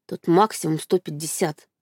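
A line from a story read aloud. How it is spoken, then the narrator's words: Strained, forced out. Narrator (Russian): выдавила Катя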